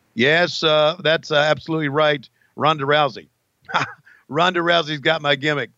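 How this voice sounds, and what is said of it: Loud gruff wrestler impression voice. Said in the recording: “I don't do the voice as quiet as Bruce Pritchard does”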